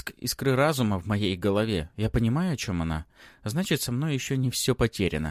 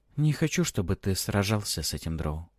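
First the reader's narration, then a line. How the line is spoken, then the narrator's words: Quiet. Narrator (Russian): тихо проговаривает Мэри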